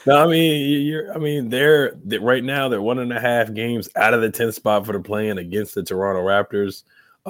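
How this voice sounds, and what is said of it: Raspy voice. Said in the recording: “I am a little under the weather, so that's why my voice is raspy.”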